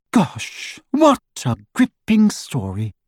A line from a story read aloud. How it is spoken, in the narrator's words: Hermione said in the lofty voice she adopted when wishing to wound